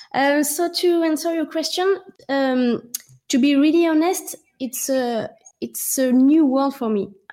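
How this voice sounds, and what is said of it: Non-native English accent. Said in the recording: “sorry for my accent”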